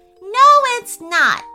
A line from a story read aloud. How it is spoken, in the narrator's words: shouted Anita